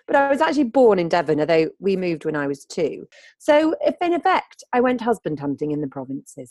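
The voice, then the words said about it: Posh northern English accent. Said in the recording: “posh northern”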